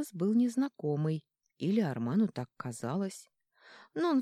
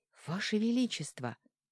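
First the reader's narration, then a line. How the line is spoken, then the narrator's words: Whisper. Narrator (Russian): прошептал он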